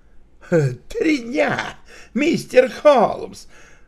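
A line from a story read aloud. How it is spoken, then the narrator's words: Exclaimed. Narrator (Russian): воскликнул майор Александров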